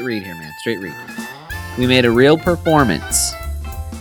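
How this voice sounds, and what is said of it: Usual voice. Nothing is said of it.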